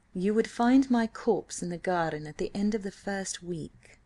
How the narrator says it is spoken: he replied solemnly

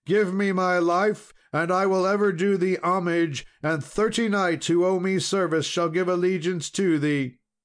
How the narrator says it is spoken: cried he

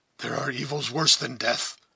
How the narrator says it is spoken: said Duncan, speaking hoarsely and as if fretful at her importunity

